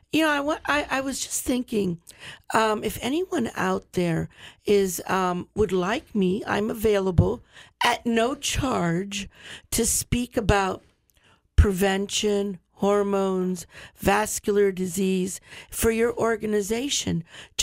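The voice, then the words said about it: Raspy voice. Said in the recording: “I apologize for my raspy little voice, but I guess I have my little allergies and asthma kicking up”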